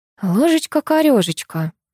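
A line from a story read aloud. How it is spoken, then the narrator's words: Muttered. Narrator (Russian): пробормотала я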